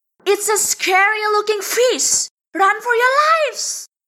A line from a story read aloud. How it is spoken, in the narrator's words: the redfish shouts to the others